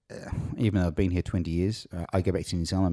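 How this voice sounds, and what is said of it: Strong New Zealand accent. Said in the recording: “the Kiwi accent ... You've still got a super strong Kiwi accent. ... Even after all those years.”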